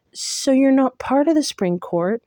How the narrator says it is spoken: Though it might have been the biggest risk I'd ever taken, I blurted

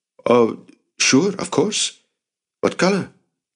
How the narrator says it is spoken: Jacob stammered

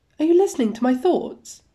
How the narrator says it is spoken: Soon-young yelps, finally noticing that Wanu has been responding to things he has definitely not been saying out loud

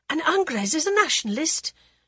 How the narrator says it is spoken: blurted before she could stop herself

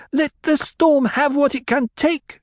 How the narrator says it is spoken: she screamed

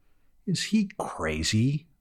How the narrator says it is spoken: groaned Green

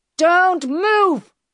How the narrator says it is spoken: he shouted

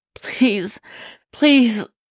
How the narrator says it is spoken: he wheezed, lips numb, tears streaming down his face

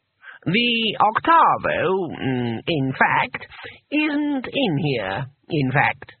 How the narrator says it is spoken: said the voice, slowly

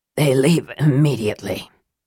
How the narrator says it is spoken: Raceland said, his words rasping in his throat

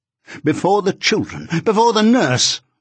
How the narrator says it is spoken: I exclaimed inwardly

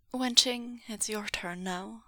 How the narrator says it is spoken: said Meng Yao, his voice calm and businesslike

